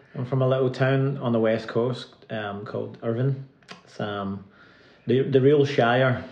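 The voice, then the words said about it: Scottish accent. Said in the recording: “you probably hear the accent ... the Ayrshire on the west coast of Scotland”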